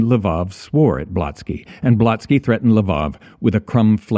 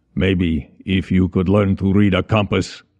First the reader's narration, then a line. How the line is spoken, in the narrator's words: Blotsky grumbled